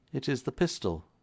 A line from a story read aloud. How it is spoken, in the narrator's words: said Combs quietly